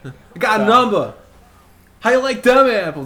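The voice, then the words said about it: Put-on Boston accent. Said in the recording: “You're Boston.”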